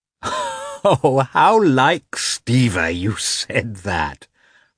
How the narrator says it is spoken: remarked Dolly, laughing

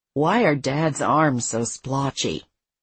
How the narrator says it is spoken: Denny asked his sisters in a low voice

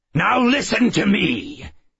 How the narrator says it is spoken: he barked

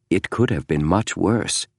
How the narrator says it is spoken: Henry James said softly

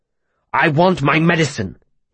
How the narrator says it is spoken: he snapped

